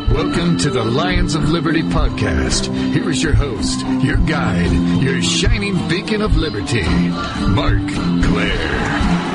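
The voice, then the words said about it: Smooth announcer radio voice. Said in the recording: “the man with the nice radio voice”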